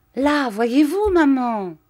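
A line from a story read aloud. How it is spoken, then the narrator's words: Exclaimed. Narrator (French): s'écria Arthur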